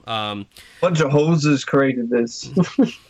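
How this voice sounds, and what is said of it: Weak attempt at Canadian accent. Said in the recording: “You can do a better accent than that.”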